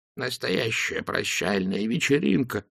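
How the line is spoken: Continuous muttering. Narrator (Russian): не переставая бормотал он

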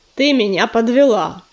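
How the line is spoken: Growling. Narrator (Russian): продолжал рычать Коршун

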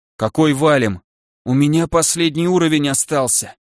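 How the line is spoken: Dejected, then hysterical whisper. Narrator (Russian): поникшим голосом произнес сухощавый паладин, с нотками истерики прошептал

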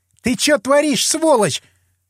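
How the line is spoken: Startled shriek. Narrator (Russian): Взвизгнула Оксана, которую шлепнул позаду

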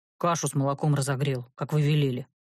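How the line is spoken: Reluctant mutter. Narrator (Russian): неохотно буркнул он

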